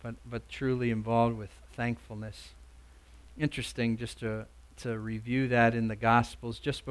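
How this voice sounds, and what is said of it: Usual voice. Nothing is said of it.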